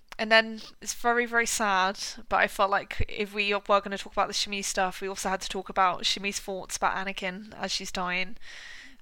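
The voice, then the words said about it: Strained, failing voice. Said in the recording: “My voice is going a bit.”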